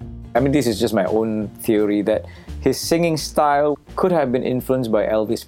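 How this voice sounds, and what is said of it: Usual voice. Nothing is said of it.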